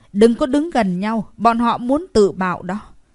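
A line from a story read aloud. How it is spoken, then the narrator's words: Loud shout. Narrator (Vietnamese): Một người trong đó hét lớn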